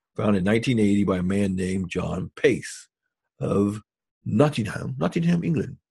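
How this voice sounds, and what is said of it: Weak put-on English accent. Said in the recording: “Need a better accent, huh?”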